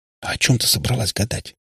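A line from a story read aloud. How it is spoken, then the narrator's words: Whisper. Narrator (Russian): шепнула Катя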